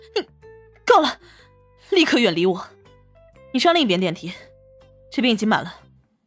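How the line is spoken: Sly, wicked laugh. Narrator (Chinese): 王峰邪笑说道

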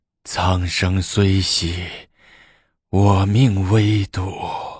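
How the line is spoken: Sorrowful sigh. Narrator (Chinese): 高宗叹了一口气，感伤的说

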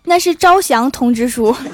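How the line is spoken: Smug smile. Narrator (Chinese): 郭大嫂得意一笑说

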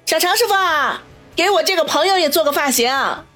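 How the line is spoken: Loud. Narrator (Chinese): 王小雷便大声的说道

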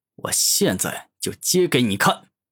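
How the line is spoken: Angry dragon. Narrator (Chinese): 生命巨龙愤怒的说道

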